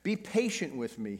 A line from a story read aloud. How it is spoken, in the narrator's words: he begged